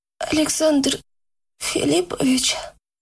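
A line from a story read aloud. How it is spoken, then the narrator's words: Hoarse, just-woken croak. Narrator (Russian): прохрипела Яна, когда, наконец, разлепила отяжелевшие веки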